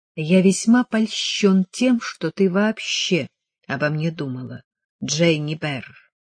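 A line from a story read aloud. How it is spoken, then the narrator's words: Quiet. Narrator (Russian): тихо сказал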